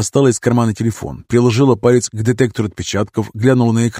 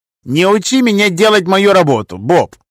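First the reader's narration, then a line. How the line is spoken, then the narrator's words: Snapped. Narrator (Russian): огрызнулся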